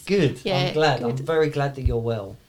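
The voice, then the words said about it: Sarcastic, insincere-sounding tone. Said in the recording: “Are you being sarcastic? ... Didn't sound very truthful.”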